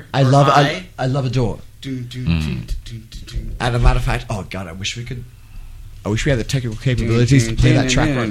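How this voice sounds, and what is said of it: Hybrid English, Irish, American accent. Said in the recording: “very strange, hybrid sort of cadence accent that you have? It's a blend of like English, Irish, ... American. It's a bunch of things. ... There are certain words you say and they go like this and other ones don't.”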